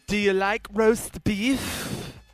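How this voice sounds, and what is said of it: Jeff Bridges impression, Dutch accent. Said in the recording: “all I can picture in my head is Jeff Bridges' accent, his Dutch accent in the movie”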